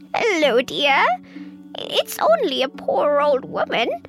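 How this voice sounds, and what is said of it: Squeaky old woman voice. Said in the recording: “came a squeaky voice.”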